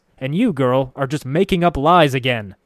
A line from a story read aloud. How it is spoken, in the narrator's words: Factor Apetrius growls